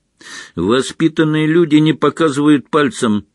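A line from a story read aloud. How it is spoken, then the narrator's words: Barking at small child. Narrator (Russian): рявкнул Рон на крошечного первокурсника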